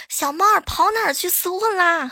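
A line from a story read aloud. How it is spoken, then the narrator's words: Shouting. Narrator (Chinese): 对方在那呐喊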